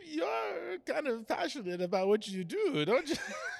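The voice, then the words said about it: Put-on French accent. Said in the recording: “in his ... French ... accent”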